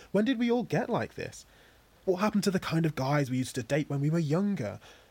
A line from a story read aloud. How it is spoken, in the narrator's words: Said Juliet dreamily